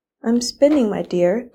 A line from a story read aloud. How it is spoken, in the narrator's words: croaked the old woman